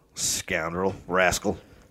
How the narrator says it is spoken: Moore mutter

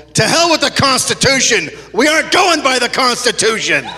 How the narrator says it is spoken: General Bell's lieutenant yelled

